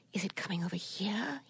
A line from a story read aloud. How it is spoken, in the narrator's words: whispered